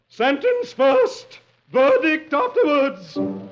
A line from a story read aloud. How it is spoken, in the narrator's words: The queen thunders